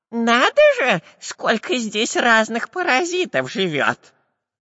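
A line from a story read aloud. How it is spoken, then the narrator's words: Nasal voice. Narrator (Russian): прогнусавил шпион Дырка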